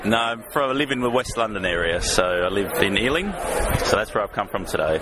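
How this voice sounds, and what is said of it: Australian accent. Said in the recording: “your accent there is not a local East End accent ... It's not East End. I am from Australia.”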